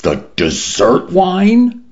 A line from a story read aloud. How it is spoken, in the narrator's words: Mendoza cried